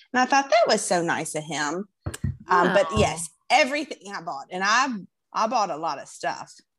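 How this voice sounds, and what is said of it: Southern American accent. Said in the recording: “that's what the Southern accent gets you.”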